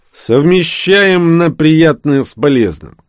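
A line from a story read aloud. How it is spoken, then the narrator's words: Spat through teeth, streetwise. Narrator (Russian): сплюнул сквозь зубы 3-й боец Паша Белов, чье уличное прошлое наложило неизгладимый отпечаток на манеру разговаривать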